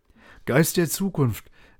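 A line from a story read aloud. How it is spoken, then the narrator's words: Called out. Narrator (German): rief Scrooge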